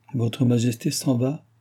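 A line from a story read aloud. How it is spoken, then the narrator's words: Countess exclaiming. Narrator (French): s'écria la comtesse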